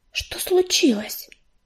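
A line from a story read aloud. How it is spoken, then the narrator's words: Whisper. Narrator (Russian): прошептала Коди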